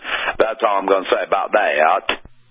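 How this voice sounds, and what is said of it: Imitates a movie character's voice. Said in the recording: “in my best Forrest Gump impersonation”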